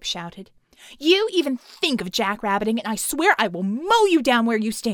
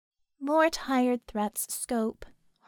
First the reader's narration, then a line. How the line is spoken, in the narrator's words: Harmony sighed